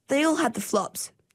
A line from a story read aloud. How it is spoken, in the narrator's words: said Ninky